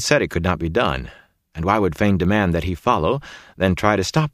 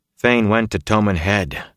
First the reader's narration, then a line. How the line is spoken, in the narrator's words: Rand said wearily